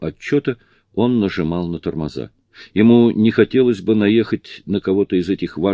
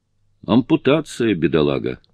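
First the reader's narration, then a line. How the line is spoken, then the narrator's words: Muttered. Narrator (Russian): пробормотал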